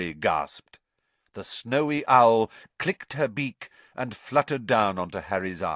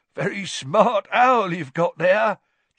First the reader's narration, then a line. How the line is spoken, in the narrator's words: chuckled Tom